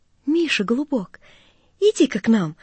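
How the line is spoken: Old man calling tenderly. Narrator (Russian): нежно позвал старик

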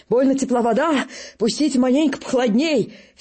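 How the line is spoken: Wheezing. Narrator (Russian): солдат барахтается, хрипит

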